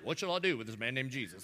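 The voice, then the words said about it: Put-on country accent. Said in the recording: “everybody had a country accent.”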